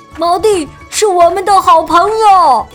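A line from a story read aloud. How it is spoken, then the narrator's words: Loud announcement. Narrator (Chinese): 大声宣布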